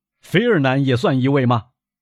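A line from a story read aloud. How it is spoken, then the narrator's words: Chuckling. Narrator (Chinese): 卡德罗斯嘿嘿的笑了几声，说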